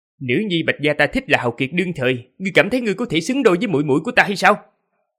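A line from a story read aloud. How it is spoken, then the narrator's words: Angry young man shouting. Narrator (Vietnamese): Người thanh niên kia tức giận cười ngược, quát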